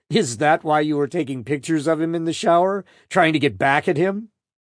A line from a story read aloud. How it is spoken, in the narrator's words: Laughing, Flores asked